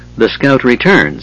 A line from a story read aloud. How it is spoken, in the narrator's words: said dryly